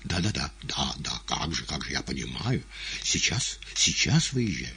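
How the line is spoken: Hurried mumbling into phone. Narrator (Russian): бормотал в телефон

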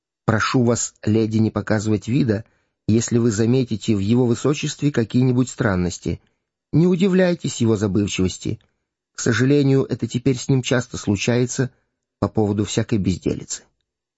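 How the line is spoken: Hasty whisper. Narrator (Russian): Гертфорд поспешно им шепнул

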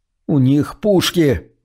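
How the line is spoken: Trembling voice. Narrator (Russian): дрожащим голосом сообщил он

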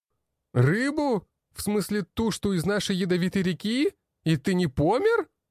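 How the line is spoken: Very loud speech. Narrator (Russian): Илья говорил настолько громко, что услышала вся столовая

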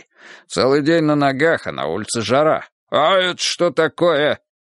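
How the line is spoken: Sudden bark. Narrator (Russian): вдруг рявкнул он

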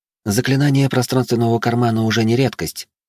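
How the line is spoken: Calm. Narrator (Russian): спокойно произнесла Журе

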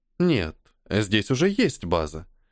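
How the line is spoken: Calm objection. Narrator (Russian): спокойно возразила Элита

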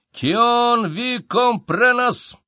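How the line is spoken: Yelling. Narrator (Russian): заорал он

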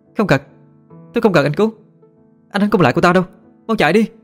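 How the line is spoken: Desperate shout. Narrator (Vietnamese): Thanh Trà hét lên

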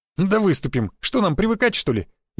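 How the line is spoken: Snide, mocking. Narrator (Russian): ехидно произнес Федька

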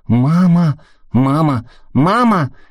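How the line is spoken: Children shouting. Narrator (Russian): кричали дети

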